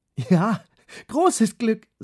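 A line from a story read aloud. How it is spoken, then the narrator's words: Laughing. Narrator (German): sagte Lotta lachend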